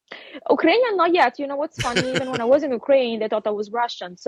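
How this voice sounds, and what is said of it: Italian accent. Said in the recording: “your accent is an Italian accent. There's no ... denying it ... my Italian accent”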